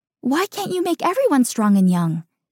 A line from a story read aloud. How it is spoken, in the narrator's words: Tiern blurts out with excitement